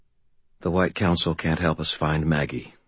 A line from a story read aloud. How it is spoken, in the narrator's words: I said quietly